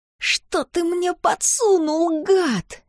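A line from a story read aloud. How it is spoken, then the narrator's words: Hissing groan, grinding teeth. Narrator (Russian): шипел, стонал он сквозь поскрипывающие зубы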